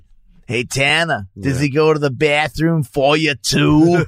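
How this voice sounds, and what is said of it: Imitates a kid's weird accent. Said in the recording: “He's got such a weird accent.”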